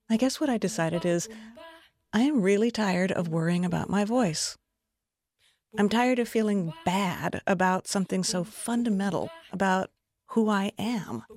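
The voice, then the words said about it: Creaky vocal fry voice. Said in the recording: “I have vocal fry. My voice creaks. It cracks sometimes.”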